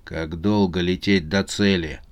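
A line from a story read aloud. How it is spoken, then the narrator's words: Grim question, chief hamster. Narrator (Russian): мрачно спросил главный хомяк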